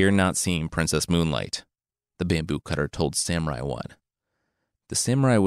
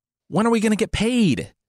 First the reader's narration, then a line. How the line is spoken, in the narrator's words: They yelled